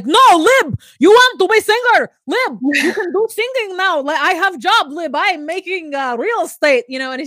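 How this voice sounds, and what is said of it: Attempted foreign accent, not quite right. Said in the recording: “that's not the accent, but I'm going to get it.”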